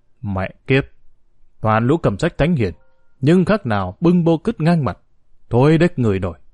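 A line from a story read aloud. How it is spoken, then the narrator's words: Harsh gritted voice. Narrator (Vietnamese): Trương Tuần Long gằn giọng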